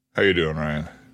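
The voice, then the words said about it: Put-on deep voice. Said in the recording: “hit a deep voice.”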